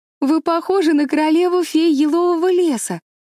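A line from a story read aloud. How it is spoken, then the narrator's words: Cheerful exclamation. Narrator (Russian): весело воскликнула Энн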